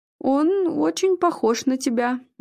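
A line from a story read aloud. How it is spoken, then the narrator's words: Hesitant, awkward. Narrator (Russian): неуверенно продолжил Игорь, понимая всю двусмысленность произнесенной фразы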